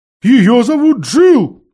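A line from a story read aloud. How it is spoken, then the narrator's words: Loud owl cry. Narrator (Russian): громко крикнула сова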